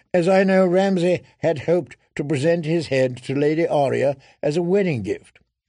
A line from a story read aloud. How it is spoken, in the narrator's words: he went on to a ripple of laughter